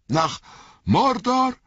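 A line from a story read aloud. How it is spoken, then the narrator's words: Calling out. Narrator (German): rief Pippin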